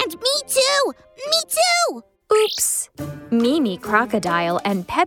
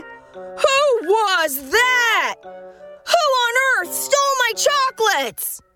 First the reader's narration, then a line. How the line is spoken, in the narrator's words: Hasty Rhino shouting